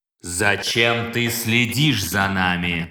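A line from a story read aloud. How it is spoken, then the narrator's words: Clipped mechanical voice. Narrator (Russian): Отчеканил механический голос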